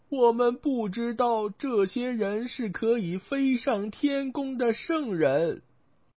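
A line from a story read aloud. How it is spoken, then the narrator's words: Women and girls wailing. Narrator (Chinese): 西凉的女人和女孩们……哭喊着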